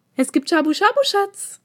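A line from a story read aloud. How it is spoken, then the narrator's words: Shrill call. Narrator (German): rief sie auf ihre übliche, ein wenig zu schrille Art und Weise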